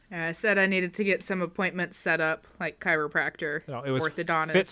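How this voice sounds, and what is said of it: Usual voice. Nothing is said of it.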